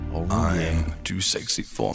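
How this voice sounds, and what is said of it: Sultry, sexy-sounding voice. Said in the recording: “since you're already talking a sexy voice”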